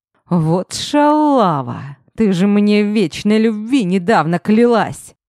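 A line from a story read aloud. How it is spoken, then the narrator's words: Loud astonished drawl. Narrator (Russian): Увидев помолвочное кольцо, изумленно протянул он, да так громко, что все обернулись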